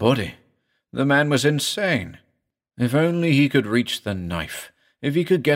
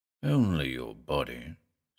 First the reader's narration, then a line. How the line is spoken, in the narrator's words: said Osaman softly